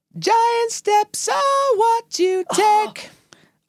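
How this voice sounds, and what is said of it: High falsetto singing. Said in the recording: “I'm going to try and do it in the original key. It was quite high, so you're going to get falsetto.”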